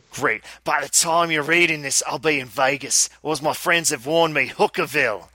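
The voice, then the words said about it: Put-on accent, admittedly bad. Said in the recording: “maybe I shouldn't try this in my accent. My accent is bad”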